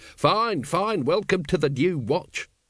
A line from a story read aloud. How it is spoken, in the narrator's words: snapped Vimes